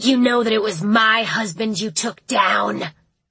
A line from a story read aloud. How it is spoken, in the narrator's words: she hissed